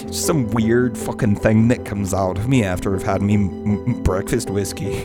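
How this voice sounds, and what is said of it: Bad mixed Irish-Scottish put-on accent. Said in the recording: “I'm gonna go fucking Irish because I don't quite have. I'm very bad... It actually is a wee bit of a mix of Irish and Scottish. It's not an actual accent.”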